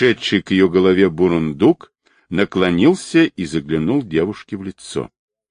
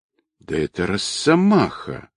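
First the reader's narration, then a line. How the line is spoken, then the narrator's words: Male voice from above. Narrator (Russian): Донесся сверху мужской голос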